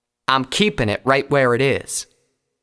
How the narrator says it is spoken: Applejack said firmly

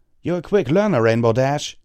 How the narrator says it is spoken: Tailwind called out from the ground

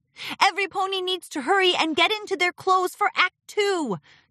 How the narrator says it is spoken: Twilight hollered

